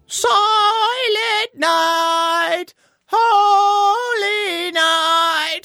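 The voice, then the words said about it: Shaky singing voice. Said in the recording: “Lincoln sang in a shaky voice and then let out a sigh.”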